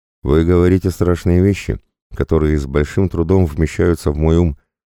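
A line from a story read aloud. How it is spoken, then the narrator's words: Sighing. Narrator (Russian): вздохнул Георгиос Агиластас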